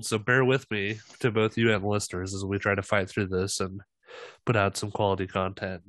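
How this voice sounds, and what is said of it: Slightly congested, sick-sounding voice. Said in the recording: “I have a little cold”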